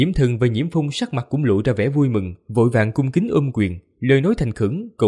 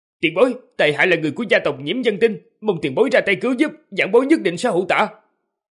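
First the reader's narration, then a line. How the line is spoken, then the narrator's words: Raised, hopeful voice. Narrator (Vietnamese): Ánh mắt tuyệt vọng của Tung Tuyết Sơn lập tức biến mất, gã cao giọng nói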